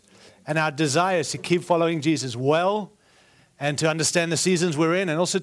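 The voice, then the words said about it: Foreign, non-American English accent. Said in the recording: “I do have an accent, as you can tell. I was born in Africa ... moved to South Africa. I spent 17 years there, and then moved to Australia”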